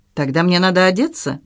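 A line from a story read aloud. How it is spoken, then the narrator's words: Laughing. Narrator (Russian): он засмеялся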